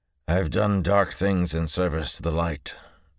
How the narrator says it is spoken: gaunt-faced Biar said grimly, as though at a personal insult

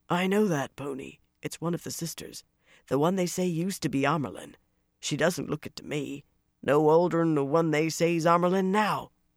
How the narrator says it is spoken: a man muttered, not far enough under his breath

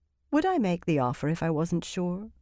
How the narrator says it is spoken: She said dryly, surprised at how calm she sounded

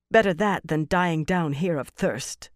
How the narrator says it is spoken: Fael replied, her voice harsher than she wanted

